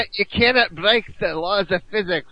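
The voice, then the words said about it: Scottish accent, Scotty impression. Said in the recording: “Is that your Scottish accent? ... It was better than James Doohan's. It's definitely better than James Doohan's. ... Not as good as David Tennant.”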